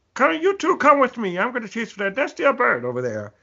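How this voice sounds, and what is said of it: Funny Don Carnage cartoon voice. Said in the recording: “he had a really ... kind of a funny voice”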